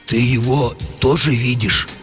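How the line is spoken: Confused whisper. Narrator (Russian): растерянно спросил комендант у сторожа все еще шепотом

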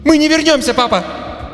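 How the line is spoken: Shouted. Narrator (Russian): Она выкрикнула эти слова

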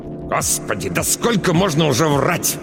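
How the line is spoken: Angry hiss. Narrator (Russian): Ираида Павловна злобно зашипела на дочь

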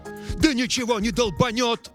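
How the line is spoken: Yelling. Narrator (Russian): заорал Эрл

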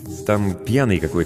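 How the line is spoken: Plain. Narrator (Russian): сказал я

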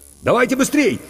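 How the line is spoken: Shouting. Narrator (Russian): крикнул Иван

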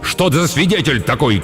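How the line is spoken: Frantic, uncontrolled shout. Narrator (Russian): крикнул Эдип, окончательно потерявший самообладание

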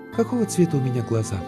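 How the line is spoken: Girl's sudden question after sigh. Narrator (Russian): Девушка вздохнула и вдруг спросила

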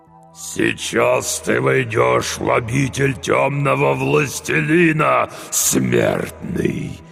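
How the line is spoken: Strained demonic growl. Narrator (Russian): прорычал демон с натугой

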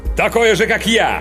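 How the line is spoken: Sudden loud bark. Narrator (Russian): Внезапно гаркнул агент

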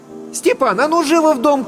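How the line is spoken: Shouted from the entryway. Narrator (Russian): крикнула Татьяна из сеней

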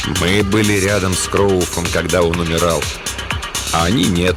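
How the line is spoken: Plain. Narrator (Russian): ответил Дафф

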